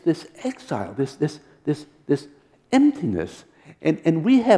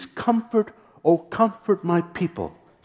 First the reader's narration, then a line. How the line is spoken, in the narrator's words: says your God